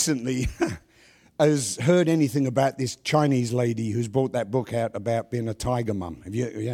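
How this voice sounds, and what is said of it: Usual voice. Nothing is said of it.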